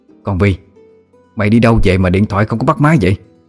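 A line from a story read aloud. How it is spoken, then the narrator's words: Loud scolding shout. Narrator (Vietnamese): mẹ Vi đã quát to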